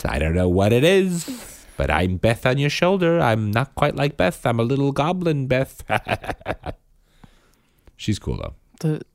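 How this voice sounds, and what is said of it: Mixed accents, goblin-like character voice. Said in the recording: “you've got this accent. ... That was like three different accents. ... You sound like Bing Bong.”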